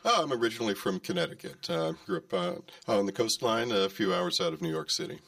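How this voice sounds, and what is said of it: American accent. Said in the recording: “very lovely American accent”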